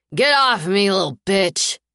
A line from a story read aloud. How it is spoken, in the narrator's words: he snarls, his voice slurred